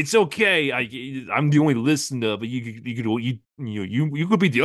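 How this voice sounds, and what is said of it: Usual voice. Nothing is said of it.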